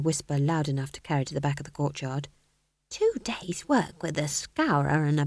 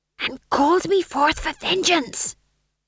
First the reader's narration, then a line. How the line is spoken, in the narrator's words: hissed Tom John